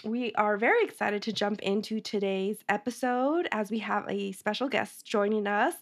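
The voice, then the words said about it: Slightly hoarse, sick-sounding voice. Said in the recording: “I'm a little bit sick this week, so if I sound a little hoarse, that's why.”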